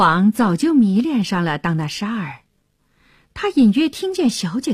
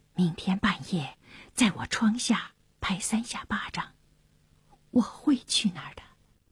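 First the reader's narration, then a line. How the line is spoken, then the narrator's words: Low voice. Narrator (Chinese): 纳沙尔低声地说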